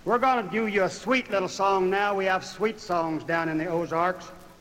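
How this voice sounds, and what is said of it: Southern American accent. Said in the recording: “my southern brogue”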